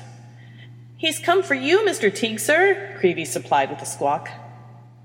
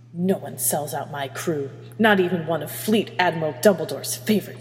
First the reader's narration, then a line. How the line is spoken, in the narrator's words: she hissed